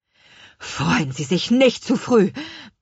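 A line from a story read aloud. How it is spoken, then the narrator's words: Angry, forced out. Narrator (German): brachte er wütend hervor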